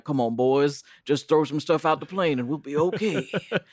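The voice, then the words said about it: Imitates another person's voice. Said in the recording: “sounds like Elvis ... my Elvis impression”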